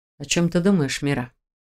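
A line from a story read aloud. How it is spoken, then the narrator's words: Quiet question. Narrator (Russian): тихо спросил Шелтер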